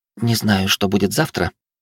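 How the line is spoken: Hot breathy whisper. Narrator (Russian): прошептала она, обжигая горячим дыханием

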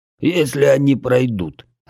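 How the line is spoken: Growl. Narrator (Russian): рыкнул Бедвар

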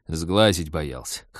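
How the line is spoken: Pilot's snorting remark. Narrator (Russian): хмыкнул пилот

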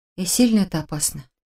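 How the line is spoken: Muttered. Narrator (Russian): пробормотала я

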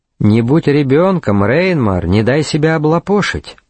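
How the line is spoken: Calm. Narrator (Russian): спокойно сказал Шарлей

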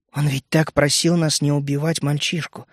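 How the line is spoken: Quiet. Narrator (Russian): тихо произнес я

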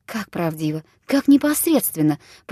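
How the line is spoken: Whispered to herself. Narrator (Russian): прошептала она словно про себя

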